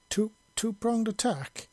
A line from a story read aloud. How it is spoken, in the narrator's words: Macha exclaimed in surprise